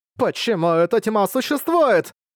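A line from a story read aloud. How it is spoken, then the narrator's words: Woman screaming. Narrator (Russian): закричала старшая сестра Цин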